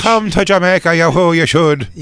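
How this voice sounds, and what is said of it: Put-on Irish accent. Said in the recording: “I'm just doing an Irish accent and saying Jamaican things”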